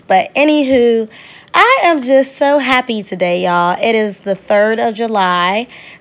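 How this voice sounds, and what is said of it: Voice affected by cold, allergies. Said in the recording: “please excuse my voice. I am catching a little cold. My allergies have been flaring up”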